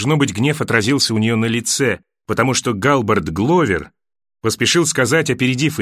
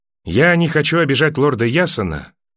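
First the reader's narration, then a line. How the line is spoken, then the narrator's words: Dry. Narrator (Russian): сухо сказала Кейтилин сыну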